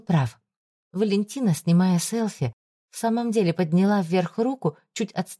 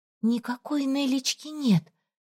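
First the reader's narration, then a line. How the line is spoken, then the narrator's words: Stunned whisper. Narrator (Russian): прошептала ошеломленно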